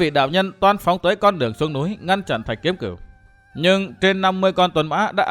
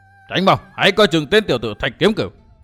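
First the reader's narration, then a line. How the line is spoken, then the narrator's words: Alarmed shout. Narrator (Vietnamese): Giác Hải đại sư kinh hãi quát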